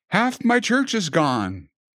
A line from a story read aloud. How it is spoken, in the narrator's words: cried out